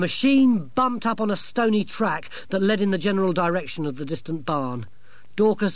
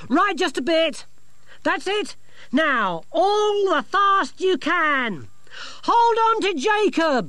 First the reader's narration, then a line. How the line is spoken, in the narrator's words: she shouted to Dorcas as the engine noise grew